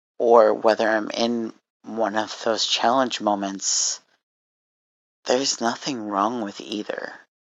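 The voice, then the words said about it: Tired, strained voice. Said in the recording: “my throat is getting a little bit tired. I'm sure you can probably hear it in my voice.”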